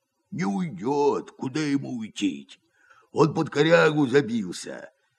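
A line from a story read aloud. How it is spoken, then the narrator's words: Hoarse, muffled deep bass. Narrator (Russian): говорит Герасим охрипшим глухим басом, идущим не из гортани, а из глубины живота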